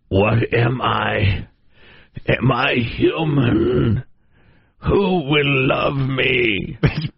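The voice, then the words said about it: Grunty pig-like voice. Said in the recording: “in a grunty voice”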